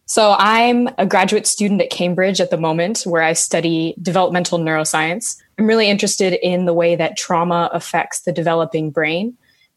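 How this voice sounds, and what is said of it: American accent, Indiana. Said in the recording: “I'm American, as you can tell from the accent, born and raised in Indiana”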